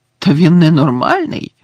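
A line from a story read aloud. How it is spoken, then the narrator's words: Exclamation. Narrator (Ukrainian): вигукнув Гаррі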